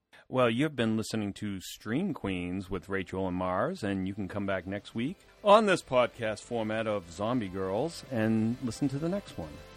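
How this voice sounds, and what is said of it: Pleasant radio announcer voice. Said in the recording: “You have such a pleasant radio voice,”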